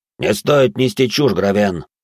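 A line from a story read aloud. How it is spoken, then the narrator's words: Snapping. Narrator (Russian): огрызнулся один из стражников, тот, что, наверное, старший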